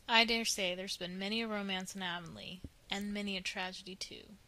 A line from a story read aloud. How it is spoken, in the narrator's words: said Mr